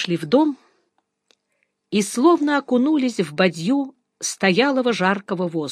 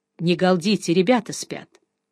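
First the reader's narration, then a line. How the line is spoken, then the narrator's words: Hushed voice. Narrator (Russian): сказал вполголоса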